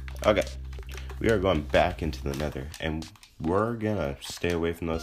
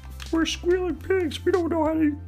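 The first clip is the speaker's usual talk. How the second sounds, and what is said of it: Kermit the Frog impression. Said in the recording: “Why am I talking in a Kermit voice? Kermit the Frog. ... I can't do a Kermit. I'm sorry. I tried.”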